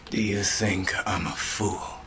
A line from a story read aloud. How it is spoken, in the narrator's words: The Reaper breathed